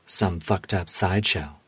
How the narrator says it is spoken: she said

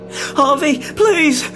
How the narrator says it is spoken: Rob yelped

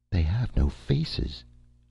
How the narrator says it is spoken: whispered

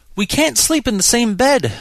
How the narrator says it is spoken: she wailed

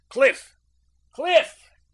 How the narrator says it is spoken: he shouted

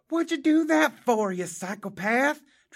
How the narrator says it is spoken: Travis Troy hollered

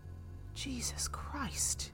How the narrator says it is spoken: Teresa breathed to her mother

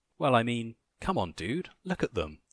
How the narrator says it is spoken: laughed

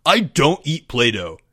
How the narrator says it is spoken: Greg snapped

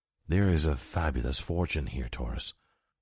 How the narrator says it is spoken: he whispered

